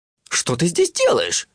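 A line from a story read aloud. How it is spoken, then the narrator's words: Exclaiming. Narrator (Russian): воскликнул джин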